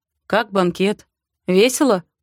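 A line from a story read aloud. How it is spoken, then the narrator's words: Mocking question. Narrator (Russian): спрашивает насмешливо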